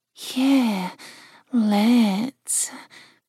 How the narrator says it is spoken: Jill said in a different voice, one that had a deep purr to it

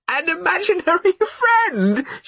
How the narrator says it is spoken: she cried

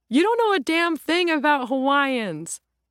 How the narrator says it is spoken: Laughed

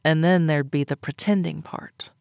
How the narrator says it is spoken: I muttered

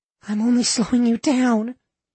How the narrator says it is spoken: Lana sobbed

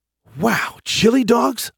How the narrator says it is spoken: I gasped

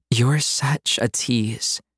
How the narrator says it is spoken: she breathed

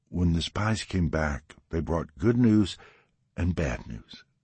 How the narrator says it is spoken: Deborah said, her voice lilting softly like a storyteller

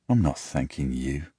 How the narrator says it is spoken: I mumble quietly

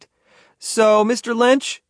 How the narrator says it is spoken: he yelled back

